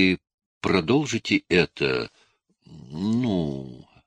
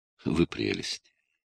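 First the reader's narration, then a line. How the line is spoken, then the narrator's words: Tender speech. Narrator (Russian): нежно произнес он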